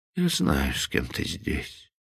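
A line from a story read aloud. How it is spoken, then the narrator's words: Sad, continuing. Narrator (Russian): продолжал, грустно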